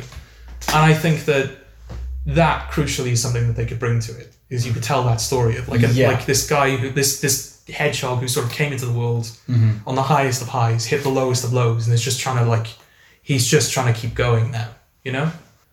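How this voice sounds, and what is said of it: Fast, breathless speech. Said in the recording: “I'm talking faster as well ... You're like getting out of breath”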